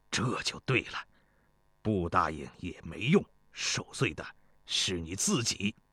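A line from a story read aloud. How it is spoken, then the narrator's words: Smug, pleased. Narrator (Chinese): 庞聪…脸上露出得意的笑容，说道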